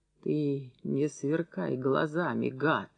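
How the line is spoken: Hoarse voice. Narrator (Russian): хрипло проговорил Курганов

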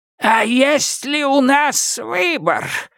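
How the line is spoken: Hoarse reply. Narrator (Russian): хриплым голосом отозвался Безил

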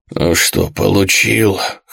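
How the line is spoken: Hoarse mocking jab. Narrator (Russian): хрипло съязвил мясник

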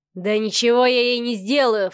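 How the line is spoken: Snorted. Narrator (Russian): фыркнул брат

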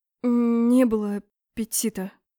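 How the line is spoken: Stammering reply. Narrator (Russian): заикаясь, ответила

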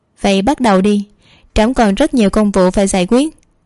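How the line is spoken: Slight smile in voice. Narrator (Vietnamese): Tiêu Kỳ không khỏi hơi mỉm cười, rồi nói

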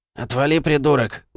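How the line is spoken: Rude reply. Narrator (Russian): грубо ответил бандит

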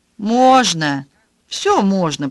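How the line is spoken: Grumbling old woman. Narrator (Russian): проворчала старая гардеробщица

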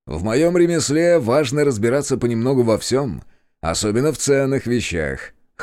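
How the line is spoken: Merchant's wry snort. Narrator (Russian): хмыкнул купец

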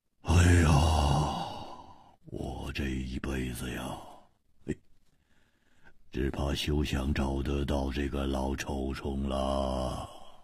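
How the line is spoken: Muttering. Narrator (Chinese): 胡铁花喃喃地说

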